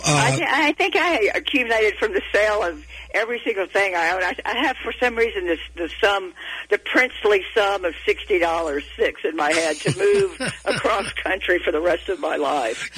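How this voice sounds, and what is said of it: Texas accent, light vocal quality. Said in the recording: “You've got that great Texas accent, ... you just have a certain light to your vocal quality”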